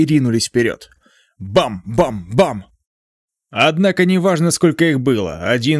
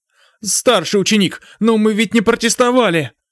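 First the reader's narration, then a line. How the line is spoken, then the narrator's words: Frightened girl. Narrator (Russian): испуганно сказала большеглазая ученица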